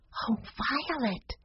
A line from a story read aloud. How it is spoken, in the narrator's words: she whispered